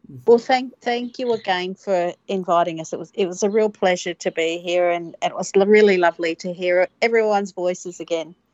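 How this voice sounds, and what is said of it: Australian accent. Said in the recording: “that beautiful Australian lilt”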